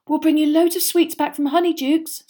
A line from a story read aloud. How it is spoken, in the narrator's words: said Hermione, looking desperately sorry for him